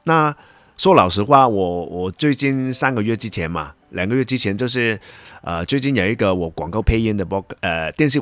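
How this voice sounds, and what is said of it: Hong Kong-accented Mandarin. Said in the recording (Chinese): “用我的港腔的国语来做一集的 podcast”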